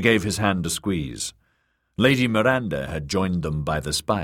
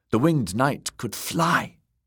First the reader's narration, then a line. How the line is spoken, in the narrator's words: Robert whispered